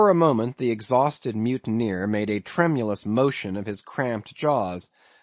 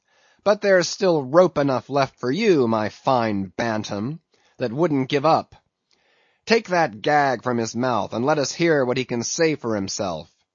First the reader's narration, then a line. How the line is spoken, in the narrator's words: he cried at last